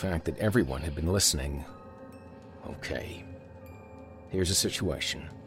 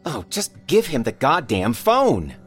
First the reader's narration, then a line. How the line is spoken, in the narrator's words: Kathy shouted